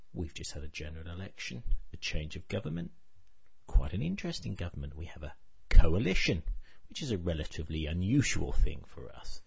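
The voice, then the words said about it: British accent. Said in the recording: “I live in the United Kingdom. You probably guessed that from this accent.”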